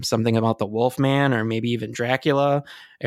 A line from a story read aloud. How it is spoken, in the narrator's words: Eric said sarcastically